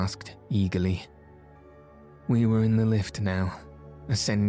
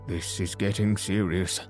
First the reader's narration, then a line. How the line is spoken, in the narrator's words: muttered the doctor